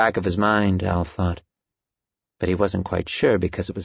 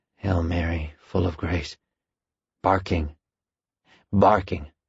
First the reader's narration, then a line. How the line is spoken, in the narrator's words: Al whispered